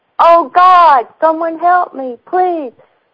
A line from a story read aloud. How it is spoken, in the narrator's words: the voice starts screaming